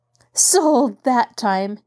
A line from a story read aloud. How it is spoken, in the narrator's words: Nancy laughed